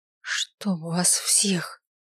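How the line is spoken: Barely audible cursing. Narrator (Russian): Выругалась чуть слышно

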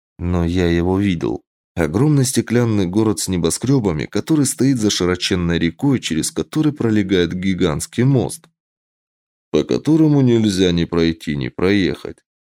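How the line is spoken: Sad reply. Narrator (Russian): как-то печально ответил Костя

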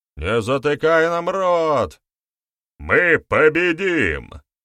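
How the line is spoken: Loud shout. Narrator (Russian): громко крикнул боярин

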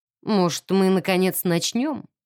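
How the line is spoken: Bored tone. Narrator (Russian): скучающим тоном предложил Родерик Хьюз

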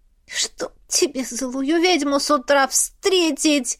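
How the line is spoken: Moaning. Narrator (Russian): Застонала

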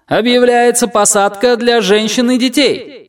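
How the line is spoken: Shouting to a crowd. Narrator (Russian): прокричал он в толпу

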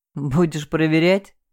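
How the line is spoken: Snorting smirk. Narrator (Russian): хмыкнул Саша

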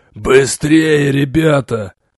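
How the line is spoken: Hoarse, wheezing. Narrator (Russian): хрипя проговорил Грэмс

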